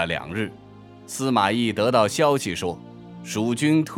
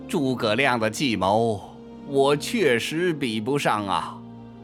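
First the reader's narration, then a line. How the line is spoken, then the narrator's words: Sighing admiration. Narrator (Chinese): 司马懿再次感叹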